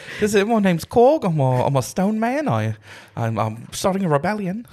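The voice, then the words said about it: Taika Waititi's Korg voice impression. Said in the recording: “going a little bit Taika Waititi.”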